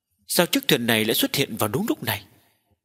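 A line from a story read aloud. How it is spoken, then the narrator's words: Startled village chief muttering. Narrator (Vietnamese): Trưởng thôn cũng giật mình trong lòng, lẩm bẩm nói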